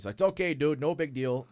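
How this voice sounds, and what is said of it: Imitated Midwestern accent. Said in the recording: “His Midwestern accent.”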